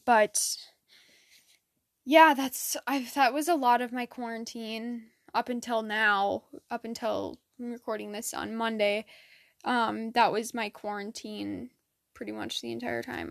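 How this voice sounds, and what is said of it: Flat, monotone, tired voice. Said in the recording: “I sound really monotoned right now, but I'm just like, I was out in the sun all day swimming, so I am kind of exhausted”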